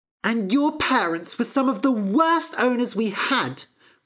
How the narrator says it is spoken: cried Fennel

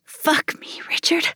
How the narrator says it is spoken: whispered

